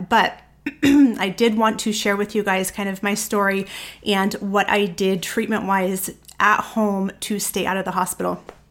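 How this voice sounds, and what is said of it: Sick, chesty-sounding voice. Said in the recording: “I'm sure you guys can probably still hear it in my voice. It is still kind of stuck in my lungs”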